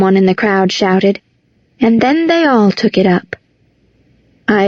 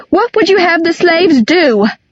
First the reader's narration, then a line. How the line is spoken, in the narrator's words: cried